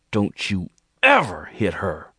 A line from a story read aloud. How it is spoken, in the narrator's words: he snarled at Jordan between clenched teeth